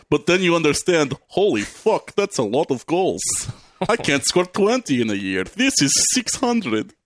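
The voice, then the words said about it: Put-on Russian accent. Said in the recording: “that was James Bond's Russian enemy. That was a very James Bond-esque Russian, like Robbie Coltrane doing a Russian accent in Goldeneye”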